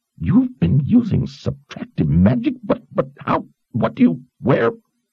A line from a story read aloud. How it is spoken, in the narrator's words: Zed sputtered, losing track of which question he wanted to ask first